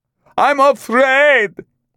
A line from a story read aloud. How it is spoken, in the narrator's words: Kondrosian shouted